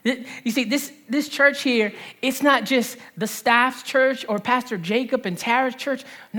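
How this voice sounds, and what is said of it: New Jersey accent. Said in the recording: “I love your Jersey accent”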